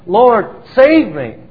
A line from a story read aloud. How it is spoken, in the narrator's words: cried out to the Lord for immediate help